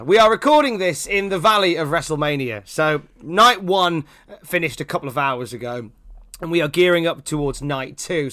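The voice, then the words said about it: Croaky, hoarse voice. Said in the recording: “my voice has gone all croaky”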